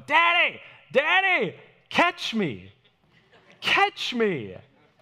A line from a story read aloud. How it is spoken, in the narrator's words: Jojo likes to go